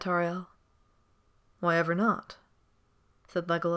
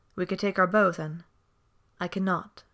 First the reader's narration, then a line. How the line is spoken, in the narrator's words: she said again firmly